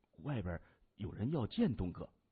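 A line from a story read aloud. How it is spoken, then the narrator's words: Low voice. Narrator (Chinese): 一名小弟低声说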